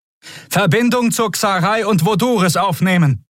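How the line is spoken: Shouted over noise. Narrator (German): rief Kudal über den Lärm

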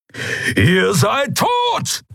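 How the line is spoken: Thundering voice. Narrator (German): donnerte Keru

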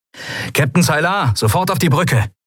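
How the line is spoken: Called through speaking tube. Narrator (German): rief Sephiron in eines der Sprechrohre

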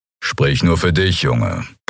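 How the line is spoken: Grumbling. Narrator (German): brummte Kero

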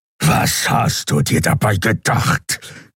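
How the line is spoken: Growling. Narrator (German): knurrte Kero

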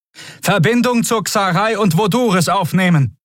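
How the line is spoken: Shouting over noise. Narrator (German): rief Quodal über den Lärm zu

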